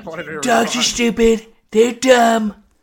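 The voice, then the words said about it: Imitates another person's voice. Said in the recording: “I'm just doing my Trump voice”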